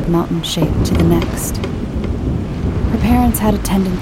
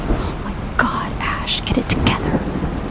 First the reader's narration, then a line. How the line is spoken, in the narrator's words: she whispered to herself